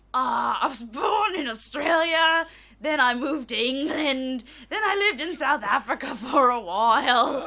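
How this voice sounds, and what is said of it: Unusual accent. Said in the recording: “you have an unusual accent”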